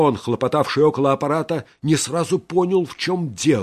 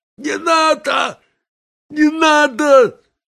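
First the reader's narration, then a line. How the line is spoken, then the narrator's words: High false wheeze, then shout. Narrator (Russian): Тома как-то прохрипел необычайно высоким, фальшивым голосом и вдруг крикнул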